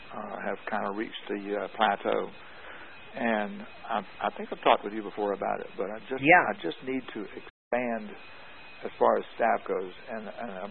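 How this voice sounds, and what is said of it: Hoarse, nearly lost voice. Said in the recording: “I'm sorry, my voice is gone.”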